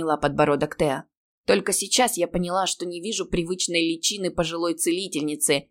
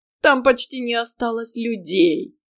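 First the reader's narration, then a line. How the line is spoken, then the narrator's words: Grating demonic laugh. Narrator (Russian): рассмеялся похожим на скрежет металла по стеклу смехом демон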